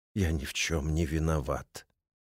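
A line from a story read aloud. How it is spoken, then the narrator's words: Farewell whisper. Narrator (Russian): цензор прошептал на прощание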